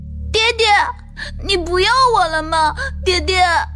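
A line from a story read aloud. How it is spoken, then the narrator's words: Child suddenly wailing. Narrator (Chinese): 锦儿…突然间哇哇大哭起来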